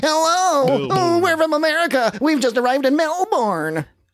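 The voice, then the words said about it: Put-on American accent. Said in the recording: “That's an American accent”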